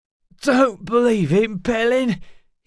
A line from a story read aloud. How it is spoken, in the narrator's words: he choked, red pain rolling through him